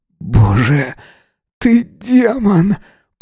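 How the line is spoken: Dry-mouthed groan. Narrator (Russian): Простонал он пересохшим ртом

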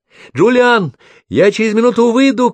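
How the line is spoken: Shouting. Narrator (Russian): крикнула Брук

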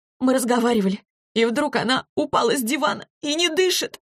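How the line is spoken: Sobbing girl. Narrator (Russian): рыдала девочка

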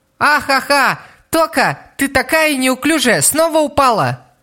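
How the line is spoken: Shouted. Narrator (Russian): Тода закричала

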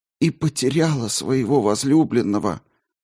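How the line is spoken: Barely audible voice. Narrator (Russian): продолжала Глафира едва внятным голосом

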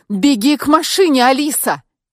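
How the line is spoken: Shout. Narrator (Russian): крикнула я

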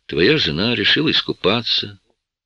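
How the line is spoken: Said after deep sigh. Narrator (Russian): Я глубоко вздохнул и сказал

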